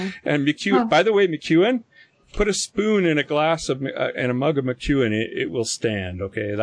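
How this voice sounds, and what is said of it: Usual voice. Nothing is said of it.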